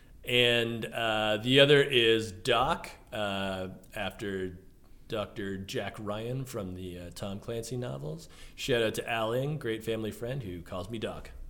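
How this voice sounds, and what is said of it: Californian American accent. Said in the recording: “I do think you have an American accent, but it's California. It's not Michigan.”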